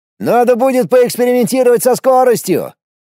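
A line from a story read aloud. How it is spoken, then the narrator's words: Shouting over wind. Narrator (Russian): перекрывая шум ветра, крикнул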